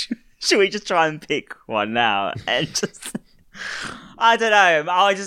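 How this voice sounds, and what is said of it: Usual voice. Nothing is said of it.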